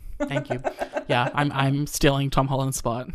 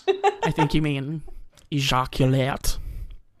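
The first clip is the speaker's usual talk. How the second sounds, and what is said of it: Imitates another person's voice. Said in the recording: “that was my impression of Arnold Schwarzenegger saying ejaculate”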